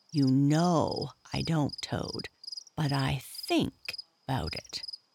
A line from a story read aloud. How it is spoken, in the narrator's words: he added pathetically in a lower tone